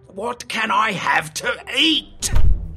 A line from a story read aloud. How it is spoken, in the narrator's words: He grumbled